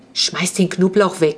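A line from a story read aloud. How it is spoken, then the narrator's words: Whisper. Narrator (German): flüsterte zu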